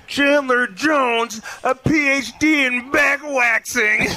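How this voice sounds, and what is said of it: Imitates another person's voice. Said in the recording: “can I impersonate him really fast? ... That was awful ... I sound just like him.”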